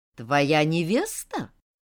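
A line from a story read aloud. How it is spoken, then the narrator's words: Menacing questioning magister. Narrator (Russian): нехорошим тоном переспросил магистр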